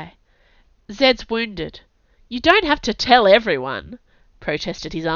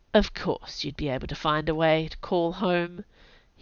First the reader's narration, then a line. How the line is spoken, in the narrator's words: he mumbled to himself